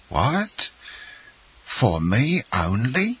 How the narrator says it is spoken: cried Caderousse

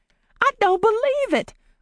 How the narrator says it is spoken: Polly exclaimed

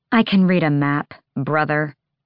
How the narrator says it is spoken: Hassar growled

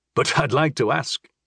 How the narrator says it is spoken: he chuckled

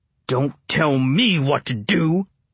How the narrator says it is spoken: Bear growled

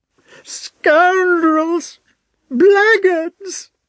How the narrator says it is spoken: shrieked the old man

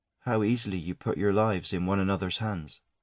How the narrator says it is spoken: she said quietly

